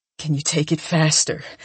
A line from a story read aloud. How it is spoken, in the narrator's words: He rasps